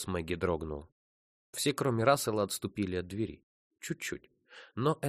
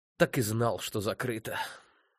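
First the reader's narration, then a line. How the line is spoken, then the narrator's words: Sorrowful sigh. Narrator (Russian): Сокрушенно вздохнул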